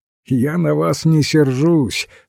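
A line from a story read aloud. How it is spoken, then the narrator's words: Laughing. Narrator (Russian): смеялся он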